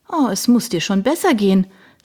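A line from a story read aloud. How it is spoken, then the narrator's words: Cheerful. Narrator (German): sagte Darina fröhlich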